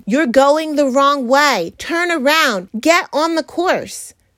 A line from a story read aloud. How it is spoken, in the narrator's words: God, in His mercy, has blessed us with pastors, leaders, and His word, standing on that course day in and day out yelling